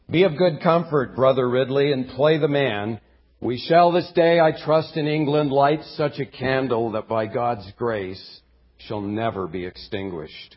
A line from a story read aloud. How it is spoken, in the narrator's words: he called out to Ridley